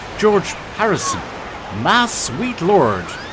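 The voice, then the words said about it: Put-on American accent. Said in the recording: “with an American accent”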